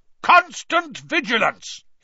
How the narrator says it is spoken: He roared

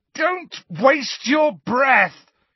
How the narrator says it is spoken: yelled Harry, his eyes screwed up against the pain in his scar, now more terrible than ever

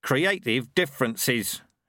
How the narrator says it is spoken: he growled

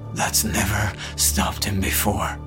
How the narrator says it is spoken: muttered

